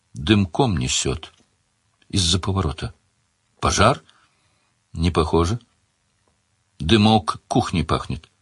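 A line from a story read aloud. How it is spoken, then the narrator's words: Quiet. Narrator (Russian): Она тихо сказала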